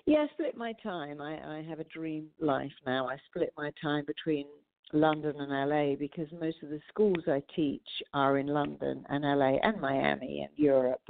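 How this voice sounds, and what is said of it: Noticeable foreign accent. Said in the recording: “you might detect an accent.”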